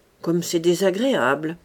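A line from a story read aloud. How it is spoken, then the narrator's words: Grumbling queen. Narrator (French): grommela la reine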